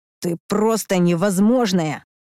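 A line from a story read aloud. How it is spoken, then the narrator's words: Growl. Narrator (Russian): Рыкнул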